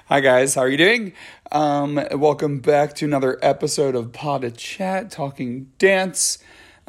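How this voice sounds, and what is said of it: Scratchy voice. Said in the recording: “my voice sounds a little scratchy, it's because I haven't used it at all today ... I'm still warming it up”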